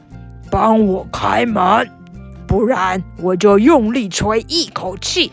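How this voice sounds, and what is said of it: Low, deep big bad wolf voice. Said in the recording (Chinese): “用低沉的声音说”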